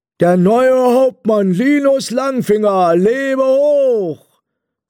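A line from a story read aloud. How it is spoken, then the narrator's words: Call. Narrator (German): rief Bert Beute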